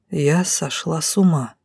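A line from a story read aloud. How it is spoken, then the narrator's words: Gloomy mutter. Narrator (Russian): буркнула я мрачно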